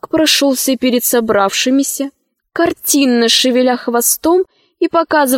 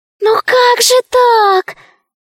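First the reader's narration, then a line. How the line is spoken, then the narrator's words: Terrified squeak. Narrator (Russian): пискнул один из зайчиков, дрожа от ужаса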